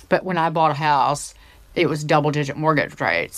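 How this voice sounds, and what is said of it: Put-on Southern US accent. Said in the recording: “I'm going to do the Southern accent just because I'm where I'm from, it's not”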